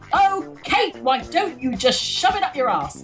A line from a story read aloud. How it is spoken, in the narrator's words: people shout